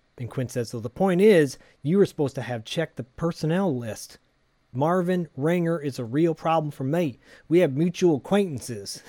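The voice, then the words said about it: Put-on accent drifting southern. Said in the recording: “your accent is devolving. ... you were doing a good subtle one about 20 minutes ago, and now it's devolving further south.”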